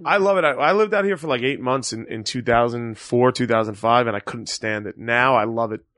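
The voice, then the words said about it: Strong Staten Island accent. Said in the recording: “what's up with the accent, buddy? And I'm like, yeah, it's Staten Island... It's like an accent and a half”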